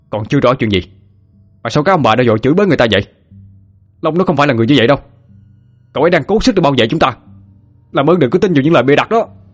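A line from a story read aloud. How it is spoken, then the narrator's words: Uncontrolled yell. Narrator (Vietnamese): Hậu nghe những lời nói đó, không kìm được mà gào lên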